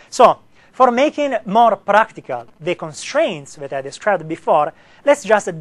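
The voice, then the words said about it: Italian-accented English. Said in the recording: “Italian accent ... I wish sometimes to have something to turn it off, but I can't. I can only enunciate.”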